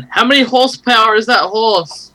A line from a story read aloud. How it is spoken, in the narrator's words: yell up